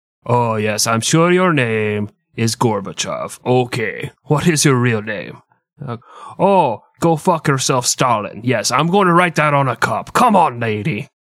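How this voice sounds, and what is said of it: Exaggerated bad Russian accent. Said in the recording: “Your Russian accent is fucking atrocious.”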